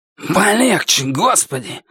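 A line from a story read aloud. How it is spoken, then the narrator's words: Hissed. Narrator (Russian): прошипел он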